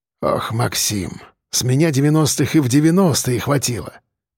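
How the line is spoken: Muttering. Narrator (Russian): пробормотал он

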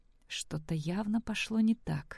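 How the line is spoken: Frightened whisper. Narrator (Russian): с круглыми от страха глазами прошептала она

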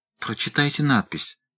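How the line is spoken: Faint pleading voice. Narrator (Russian): умоляющим голосом сказала гувернантка, чувствуя, что мрак застилает ей глаза

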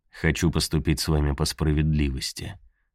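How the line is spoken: Soft reply. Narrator (Russian): ответил он и мягко добавил

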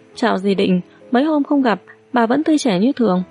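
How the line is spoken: Smiling greeting. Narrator (Vietnamese): Mễ Khả Nhi mỉm cười chào hỏi

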